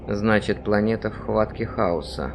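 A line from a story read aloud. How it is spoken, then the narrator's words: Muttered. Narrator (Russian): пробормотал примарх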